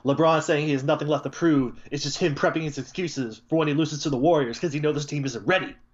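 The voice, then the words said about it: Mock radio announcer voice. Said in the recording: “put on my best radio voice”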